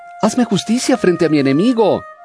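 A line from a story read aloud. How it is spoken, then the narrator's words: Widow pleading persistently. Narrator (Spanish): una viuda que no cesaba de suplicarle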